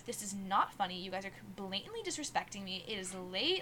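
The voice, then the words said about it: Stern, serious scolding voice. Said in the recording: “I, like, totally turned on, like, my serious voice”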